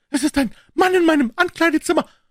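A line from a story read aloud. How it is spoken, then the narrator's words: Breathless cry, female. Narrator (German): rief sie atemlos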